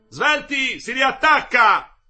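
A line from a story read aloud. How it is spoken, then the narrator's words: Shout. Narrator (Italian): gridò Nardini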